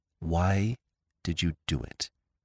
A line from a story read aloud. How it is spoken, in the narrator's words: she said in a low voice